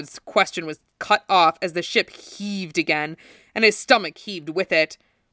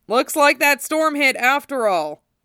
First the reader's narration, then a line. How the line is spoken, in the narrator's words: Zack shouted between crashes of thunder